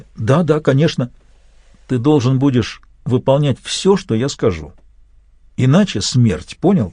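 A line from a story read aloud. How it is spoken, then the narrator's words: Nervous, frightened. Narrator (Russian): вновь нервно, испуганно Самет ответил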